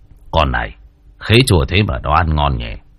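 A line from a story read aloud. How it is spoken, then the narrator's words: Muttering old man. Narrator (Vietnamese): Lão lẩm bẩm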